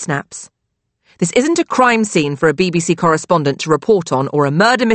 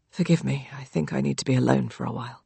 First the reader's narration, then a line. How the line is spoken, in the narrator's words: he says quietly